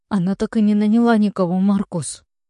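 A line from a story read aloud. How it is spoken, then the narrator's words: Sobbing. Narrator (Russian): Лекси всхлипывает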